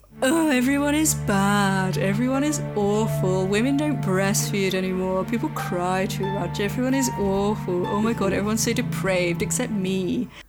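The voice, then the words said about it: Imitates another person's voice. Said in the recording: “That's my impression of Seneca.”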